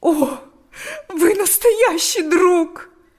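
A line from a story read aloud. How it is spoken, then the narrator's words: Bursting into sobs. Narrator (Russian): сказала она и разрыдалась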